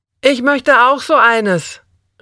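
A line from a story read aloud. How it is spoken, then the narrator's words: Calling after someone. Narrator (German): rief ich dem Barkeeper hinterher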